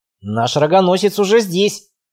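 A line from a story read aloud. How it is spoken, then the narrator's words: Snide remark. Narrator (Russian): ехидно заметил Тор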